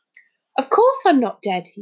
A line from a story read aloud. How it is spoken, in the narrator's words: he said indignantly